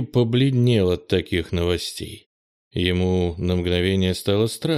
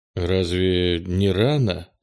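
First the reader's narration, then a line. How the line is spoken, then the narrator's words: Confused mumble. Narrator (Russian): растерянно пробормотал Кенни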